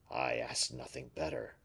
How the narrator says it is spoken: murmured the latter to himself

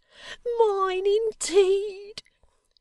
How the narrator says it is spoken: cried Miggs with a burst of bitterness

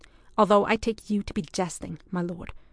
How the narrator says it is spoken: began Ewan very coldly

